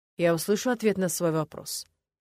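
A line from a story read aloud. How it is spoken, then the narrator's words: Cold, haughty question. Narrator (Russian): спросил Ленар так холодно и высокомерно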